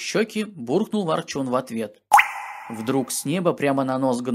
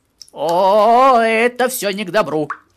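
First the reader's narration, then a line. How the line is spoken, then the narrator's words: Gnome's loud cry. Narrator (Russian): прокричал гном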